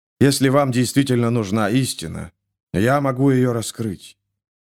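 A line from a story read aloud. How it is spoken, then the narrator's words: Soft prophet's voice. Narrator (Russian): мягко сказал пророк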